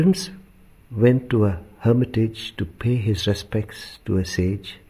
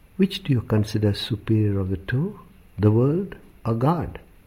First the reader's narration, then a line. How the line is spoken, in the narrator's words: The sage softly inquired